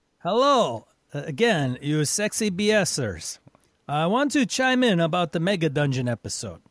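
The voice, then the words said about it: Exaggerated Eastern European accent. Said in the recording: “read this in his best worst East European accent.”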